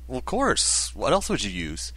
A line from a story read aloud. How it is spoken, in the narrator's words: Aaron sighed